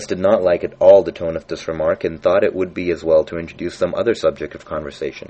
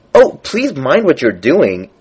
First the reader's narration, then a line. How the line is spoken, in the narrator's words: cried Alex, jumping up and down in agony of terror